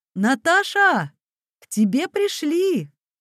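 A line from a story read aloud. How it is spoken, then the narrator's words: Loud. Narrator (Russian): И громко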